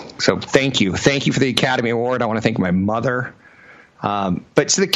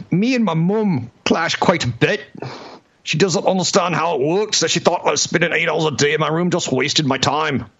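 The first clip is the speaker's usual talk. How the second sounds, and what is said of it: Put-on English accent. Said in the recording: “That's my best English kind of brogue thing.”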